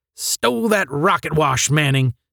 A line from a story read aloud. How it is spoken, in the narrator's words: snapped Mike